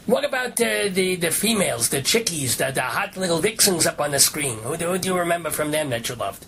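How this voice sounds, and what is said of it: Speaker's own noticeable accent. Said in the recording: “He almost talks like me. He almost has my accent a little bit.”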